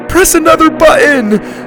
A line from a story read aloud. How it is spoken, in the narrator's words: Susie screamed